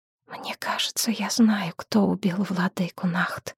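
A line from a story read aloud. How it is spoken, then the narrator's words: Barely audible whisper. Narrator (Russian): прошептала жрица чуть слышно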